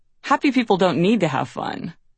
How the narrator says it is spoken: The writer Gene Stafford scoffed

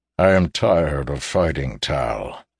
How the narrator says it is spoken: he said, his tone heavy with the sound of defeat

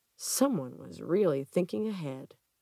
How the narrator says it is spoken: Gwendy mutters to herself

